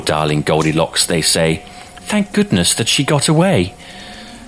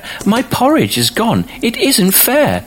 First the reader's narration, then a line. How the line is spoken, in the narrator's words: cried the baby bear